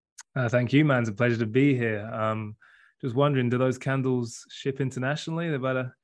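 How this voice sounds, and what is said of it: Speaks with a noticeable accent. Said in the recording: “I always, you know, talk a lot of shit about his accent, but I always love it.”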